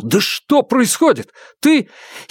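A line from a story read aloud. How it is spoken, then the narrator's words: Shouting. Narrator (Russian): Фанму выкрикнул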